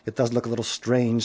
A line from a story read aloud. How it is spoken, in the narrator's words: said Aaron